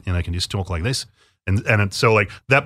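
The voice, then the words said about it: Put-on Australian accent. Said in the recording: “maybe it can be like an Australian accent”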